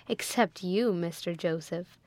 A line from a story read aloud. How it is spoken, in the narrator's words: she added with a laugh